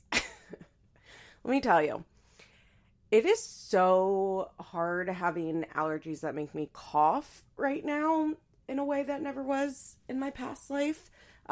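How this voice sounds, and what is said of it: Stuffy-nosed, hoarse voice. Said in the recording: “my allergies are going off this morning, so please excuse my very stuffy nose and my hoarse voice”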